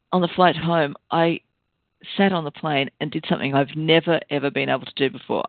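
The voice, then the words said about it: Tired, croaky voice. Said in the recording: “I'm a bit tired, as you can tell from my voice. I'm really croaky.”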